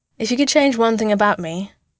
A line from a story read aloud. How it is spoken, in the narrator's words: Bruce asks Clint